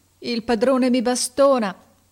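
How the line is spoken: Sobbing. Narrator (Italian): disse singhiozzando

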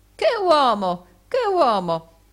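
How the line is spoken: Calm exclamation. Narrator (Italian): non mostrò alcun indizio di collera e si contentò di esclamare come prima

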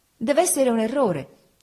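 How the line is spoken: Exclaimed. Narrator (Italian): esclamai

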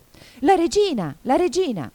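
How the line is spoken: Anxious shout. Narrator (Italian): Cinque, che guardava attorno pieno d'ansia, gridò

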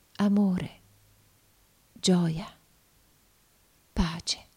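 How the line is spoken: Blissful smiling murmur. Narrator (Italian): Uno sfavillante e beato sorriso rischiarò il suo volto ed essa mormorò

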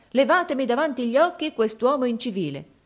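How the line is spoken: Exclaiming. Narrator (Italian): esclamò

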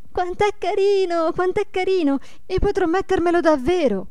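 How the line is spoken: Repeated excited cries. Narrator (Italian): gridando ad ogni momento

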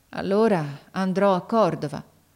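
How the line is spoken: Resigned sighing boy. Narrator (Italian): Il ragazzo mise un sospiro, poi disse con rassegnazione

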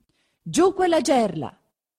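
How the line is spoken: Shouting. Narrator (Italian): si grida

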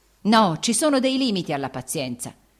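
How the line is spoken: Man shouting. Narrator (Italian): egli gridò

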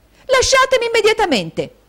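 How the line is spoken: Shout. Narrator (Italian): gridò Caterina

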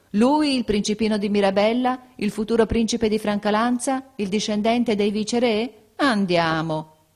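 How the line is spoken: Incredulous laughing exclamation. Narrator (Italian): molti ridevano di incredulità, esclamando

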